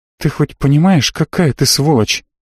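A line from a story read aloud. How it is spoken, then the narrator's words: Asked quietly. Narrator (Russian): тихо спросила Марго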